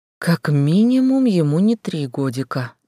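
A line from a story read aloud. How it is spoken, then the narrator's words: Remarked. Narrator (Russian): заметила Валерия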